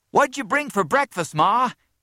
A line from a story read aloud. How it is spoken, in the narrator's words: he cried